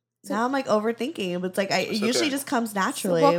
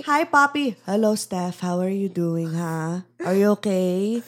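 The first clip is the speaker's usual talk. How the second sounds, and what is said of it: Put-on thick Filipino accent. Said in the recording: “my thick Filipino accent ... let me hear your Filipino accent”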